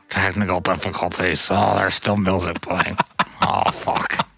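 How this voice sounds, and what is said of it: Old man engineer voice, too much mouth. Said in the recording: “your engineer impersonation voice ... it's always old men ... Old white men with, like, too much mouth”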